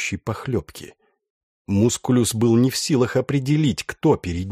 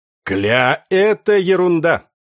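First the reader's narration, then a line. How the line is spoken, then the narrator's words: Cheerful. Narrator (Russian): весело сказал Яныш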